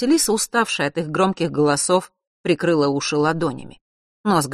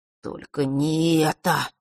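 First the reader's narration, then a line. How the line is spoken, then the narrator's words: Sudden moan. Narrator (Russian): вдруг простонал Фэш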